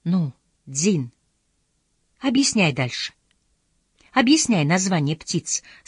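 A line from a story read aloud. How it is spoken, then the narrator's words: Plain. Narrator (Russian): сказала Инагу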